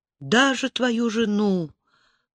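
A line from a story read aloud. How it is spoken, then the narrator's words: Whisper. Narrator (Russian): прошептала Лиана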